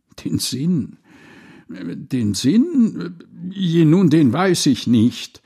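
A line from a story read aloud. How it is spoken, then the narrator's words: Stammering, flustered. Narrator (German): so stotterte der arme Wicht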